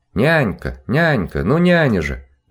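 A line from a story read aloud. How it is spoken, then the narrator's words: Loud calling. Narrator (Russian): громко позвала она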